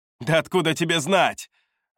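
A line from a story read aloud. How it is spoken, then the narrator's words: Snapping woman. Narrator (Russian): огрызнулась она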